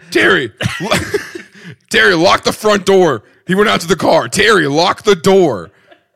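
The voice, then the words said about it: Bad imitation of another person's voice. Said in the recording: “It's not even how your parents sound at all... Not even close. It's such a terrible impression. It's a bad Tim impression.”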